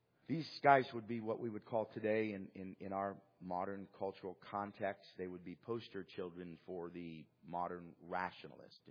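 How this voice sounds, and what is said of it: Voice sounds unwell, strained. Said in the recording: “I apologize for my voice. I haven't been feeling well”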